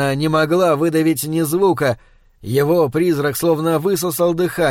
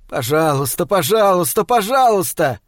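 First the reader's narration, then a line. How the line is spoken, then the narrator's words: Wild sadistic laughter. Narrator (Russian): захохотал в диком, садистском восторге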